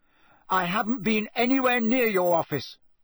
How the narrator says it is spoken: said Harry angrily

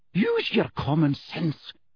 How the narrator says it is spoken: snapped Professor McGonagall with an abrupt return to her usual manner

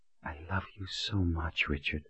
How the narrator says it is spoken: whispered

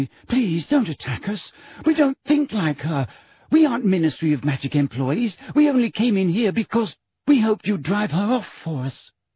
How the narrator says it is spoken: said Hermione breathlessly

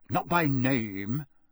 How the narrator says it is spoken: said Mr

